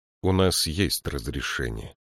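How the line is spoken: Calm. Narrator (Russian): спокойно сказал он

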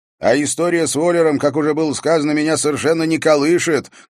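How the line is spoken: Shouted to another room. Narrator (Russian): крикнул он в открытую дверь спальни

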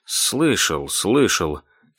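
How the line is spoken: Calm. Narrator (Russian): спокойно ответил Чарльз Хэллоуэй

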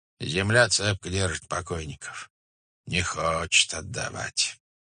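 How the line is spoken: Muttering. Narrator (Russian): бормотал он

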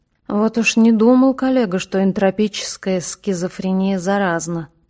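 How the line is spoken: Mutter. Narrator (Russian): пробормотал Донат Савич

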